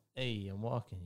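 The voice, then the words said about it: Put-on New York Brooklyn accent. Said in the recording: “he's actually doing a New York Brooklyn accent”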